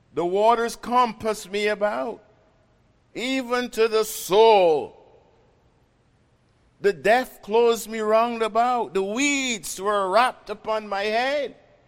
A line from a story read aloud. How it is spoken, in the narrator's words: he cried, saying